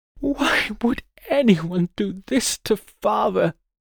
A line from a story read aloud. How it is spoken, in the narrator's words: sobbed Jean, the Lord's daughter